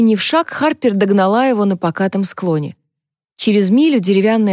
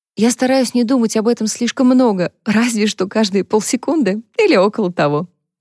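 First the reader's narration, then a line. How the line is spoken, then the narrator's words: Sigh. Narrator (Russian): вздохнула Харпер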